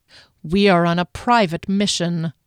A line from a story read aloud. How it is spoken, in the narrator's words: Dairy said through gritted teeth